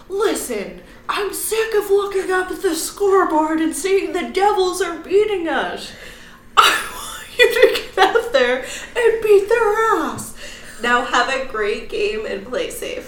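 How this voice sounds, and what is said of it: Angry, intense impression of another person. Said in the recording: “your impression is amazing. ... You had like the mouth curled and everything. ... He was so mad. ... I think you could be like a professional Henry Rollins impersonator.”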